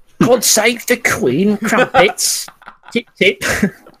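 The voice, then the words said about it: Exaggerated mock British accent. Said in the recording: “my impression of an American doing a British impression is better than my actual British accent”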